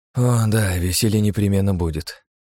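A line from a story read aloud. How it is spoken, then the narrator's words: Sigh. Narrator (Russian): вздохнул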